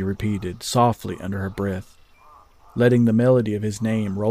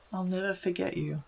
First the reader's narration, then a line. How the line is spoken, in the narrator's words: whispered, unsure if the stallion would even hear her words or not